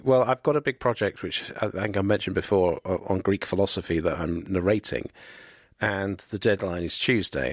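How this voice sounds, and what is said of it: Slightly rough voice. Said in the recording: “my voice is a little rough this evening ... it's just a little rough because I've spent the entire day, it feels, in my studio”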